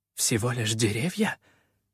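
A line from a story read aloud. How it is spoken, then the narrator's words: Hissing, baring teeth. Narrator (Russian): зашипела на него Намира, скаля зубы не хуже Ксилаев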